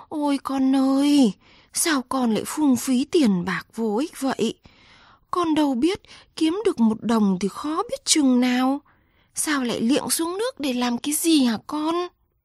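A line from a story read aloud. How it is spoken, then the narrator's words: Mother moaning. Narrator (Vietnamese): Bà mẹ rên lên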